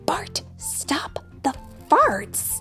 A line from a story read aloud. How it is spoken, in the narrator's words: They whisper to Bart